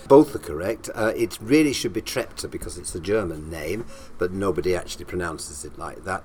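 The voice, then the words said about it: Northern English accent. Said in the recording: “one can tell from your accent immediately ... that you're from up north”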